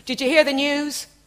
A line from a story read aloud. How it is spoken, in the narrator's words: I shouted